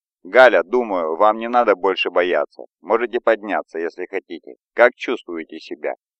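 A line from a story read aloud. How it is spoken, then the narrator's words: Calm, unworried. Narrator (Russian): Он говорил таким спокойным тоном, как будто никакой опасности вообще не было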